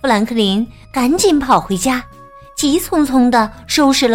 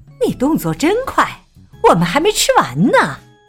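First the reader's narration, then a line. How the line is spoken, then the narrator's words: Loud. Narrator (Chinese): 海狸妈妈大声说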